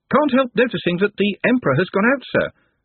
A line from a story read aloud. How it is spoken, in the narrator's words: said the voice from below cheerfully